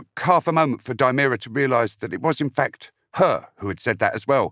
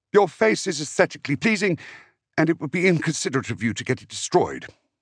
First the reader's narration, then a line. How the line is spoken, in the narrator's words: a voice added, in a similarly factual tone